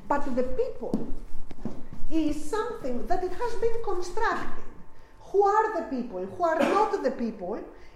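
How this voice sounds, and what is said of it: Very strong non-native accent. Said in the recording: “I have a very strong accent.”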